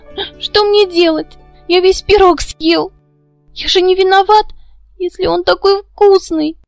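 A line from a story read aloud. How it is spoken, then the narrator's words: Whimpering. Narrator (Russian): захныкал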